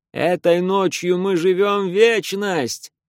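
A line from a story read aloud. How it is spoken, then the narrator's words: Shouting. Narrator (Russian): кричал человек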